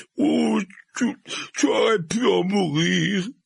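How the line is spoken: Sobbing. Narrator (French): répéta Hagrid, le corps agité de sanglots

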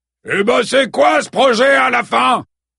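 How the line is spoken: Shouting man. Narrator (French): cria un homme bedonnant

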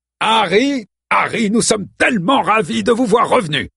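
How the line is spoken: Booming exclamation. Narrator (French): s'écria-t-il d'une voix tonitruante

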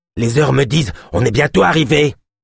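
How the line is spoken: Shouted. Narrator (French): cria Yosp

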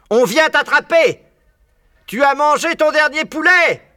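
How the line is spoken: Yelling. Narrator (French): hurlait Boggy's

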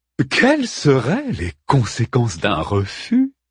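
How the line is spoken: Amused voice. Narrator (French): demanda d'une voix amusée la silhouette luminescente

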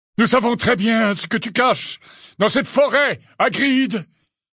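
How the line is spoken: Shouted. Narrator (French): leur cria Magorian

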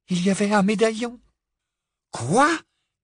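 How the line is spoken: Exclaiming in unison. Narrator (French): s'exclamèrent Harry et Ron d'une même voix

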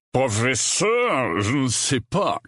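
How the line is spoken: Growling voice. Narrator (French): gronda la voix

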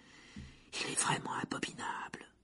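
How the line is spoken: Murmured. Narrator (French): murmura Hermione, l'oreille collée contre la porte

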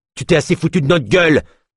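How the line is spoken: Barked. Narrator (French): aboya Scott

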